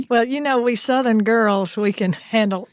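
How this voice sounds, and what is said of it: Exaggerated put-on Southern US accent. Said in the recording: “I'm going to put on my most Southern accent now... I thought that was pretty Southern, but yes. you can go more Southern... I'm going to put on my most Southern accent here.”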